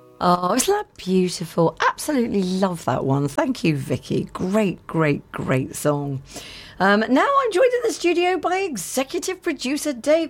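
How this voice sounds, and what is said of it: Slightly hoarse voice. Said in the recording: “A little hoarse,”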